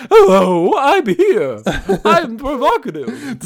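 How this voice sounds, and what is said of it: Weird put-on character voice. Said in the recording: “doing a weird voice.”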